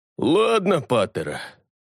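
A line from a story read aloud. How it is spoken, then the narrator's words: Sighing. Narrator (Russian): вздохнул кровь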